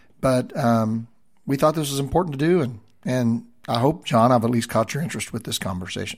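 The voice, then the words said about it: Slightly rough, hoarse voice. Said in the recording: “my voice is a little bit still rough from my COVID journey”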